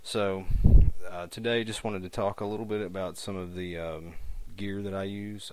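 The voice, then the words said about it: Rural American hillbilly accent. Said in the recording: “my terrible hillbilly accent”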